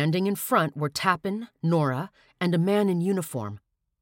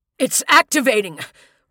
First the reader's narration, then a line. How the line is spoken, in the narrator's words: Rush cried, his voice breaking